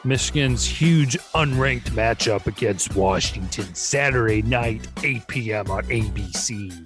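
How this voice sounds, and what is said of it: Jesse Ventura impression. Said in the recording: “that your Jesse Ventura impression? ... It was pretty close.”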